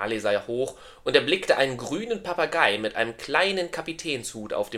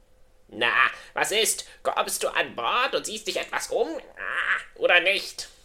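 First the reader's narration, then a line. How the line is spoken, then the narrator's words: Croaking parrot. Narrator (German): krächzte der Papagei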